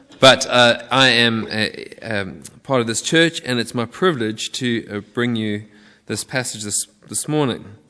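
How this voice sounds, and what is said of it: Slight South African twang. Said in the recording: “I've got a little bit of a twang. That's because I'm from down south, way down south on the southern tip of Africa.”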